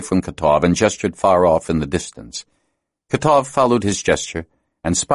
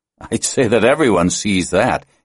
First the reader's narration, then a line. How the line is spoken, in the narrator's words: added with a laugh